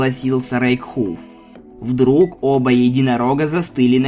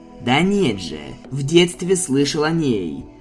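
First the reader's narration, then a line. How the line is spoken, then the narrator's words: Irritated mutter. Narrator (Russian): Раздраженно пробормотал Импедимент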